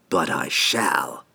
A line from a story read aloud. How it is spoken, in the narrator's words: Antreri hissed